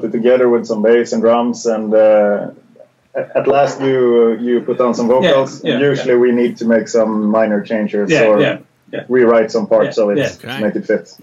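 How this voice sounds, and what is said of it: Swedish Gothenburg accent. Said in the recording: “maybe it's partially the accent. Are you guys in Sweden? ... Your accent actually reminds me of Bjorn from In Flames ... is there a Gothenburg accent? ... Yeah, for sure.”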